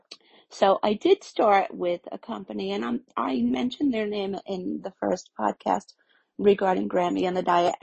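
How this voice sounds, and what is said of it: Voice affected by a cold. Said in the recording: “Excuse my voice today. I have a little bit of a cold.”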